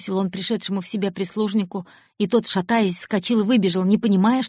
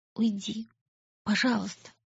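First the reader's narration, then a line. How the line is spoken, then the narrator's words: Whispered. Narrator (Russian): прошептала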